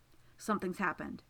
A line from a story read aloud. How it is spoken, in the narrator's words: he says, and his voice is urgent